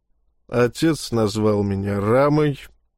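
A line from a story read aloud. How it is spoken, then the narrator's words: Muttered under breath. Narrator (Russian): буркнул себе под нос владелец секиры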